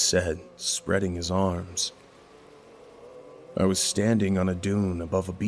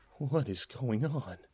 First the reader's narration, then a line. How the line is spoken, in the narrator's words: muttered in shock